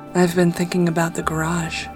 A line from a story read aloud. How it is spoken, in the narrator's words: she purred